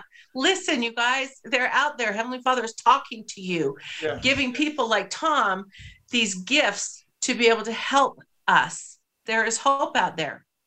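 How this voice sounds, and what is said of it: Emotional voice. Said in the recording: “I'm a little emotional today.”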